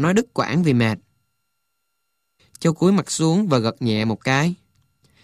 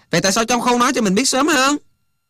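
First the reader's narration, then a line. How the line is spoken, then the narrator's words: Sudden loud shout. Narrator (Vietnamese): Hạnh bỗng quát lớn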